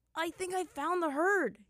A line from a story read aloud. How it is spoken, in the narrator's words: he exclaimed, his voice high